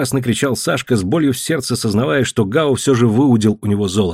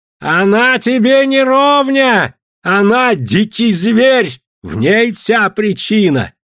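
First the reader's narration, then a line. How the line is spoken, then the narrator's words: Shouting. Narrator (Russian): кричал Гао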